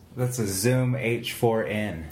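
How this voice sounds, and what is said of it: Radio announcer style voice. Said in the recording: “You have a radio voice.”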